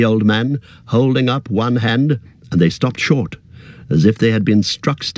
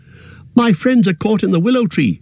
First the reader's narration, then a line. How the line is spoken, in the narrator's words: cried Frodo, breathless